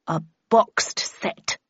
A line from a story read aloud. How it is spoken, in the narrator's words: replied the Red Queen coldly